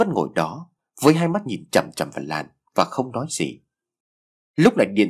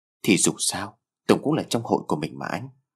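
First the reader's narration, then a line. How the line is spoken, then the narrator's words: Soft, sad voice. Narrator (Vietnamese): Lan đôi mắt có vẻ hơi buồn bã, cô nói giọng nhỏ nhẹ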